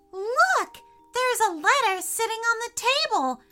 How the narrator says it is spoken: shouted Freya

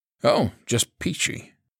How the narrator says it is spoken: Troy said dryly

